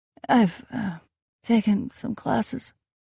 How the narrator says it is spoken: I answered breathlessly

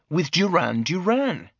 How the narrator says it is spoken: I said indignantly

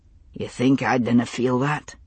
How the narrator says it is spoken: he asked quietly

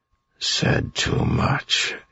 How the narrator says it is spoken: he muttered, still shaking

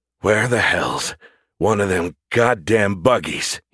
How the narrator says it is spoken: He rasped, slowing to a forced march and grimacing with every step

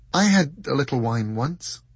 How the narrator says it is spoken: said Dor, hesitantly

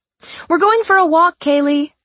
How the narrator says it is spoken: she called out to the housekeeper

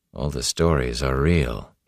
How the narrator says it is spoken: he said softly

